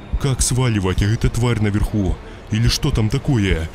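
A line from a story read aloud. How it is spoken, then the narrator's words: Frightened reply. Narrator (Russian): испуганно ответил Илья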